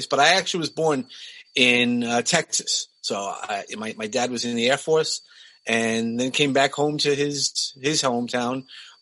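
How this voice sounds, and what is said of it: Brooklyn New York accent. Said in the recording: “I grew up in Brooklyn, as you could probably hear from my voice”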